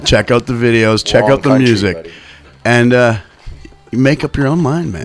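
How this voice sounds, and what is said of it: Put-on Portuguese accent. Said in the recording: “That's my Portuguese accent”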